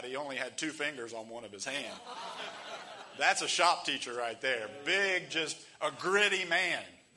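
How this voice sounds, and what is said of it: Slight Southern American accent. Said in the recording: “I have a little bit of a southern accent because most of my kinfolk are from Kentucky”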